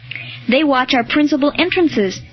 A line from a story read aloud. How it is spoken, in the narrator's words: said Honorius